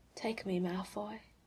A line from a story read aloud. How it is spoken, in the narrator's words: he whispers in Draco's ear